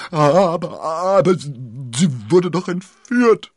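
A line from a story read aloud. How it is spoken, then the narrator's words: Stammering. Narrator (German): stammelte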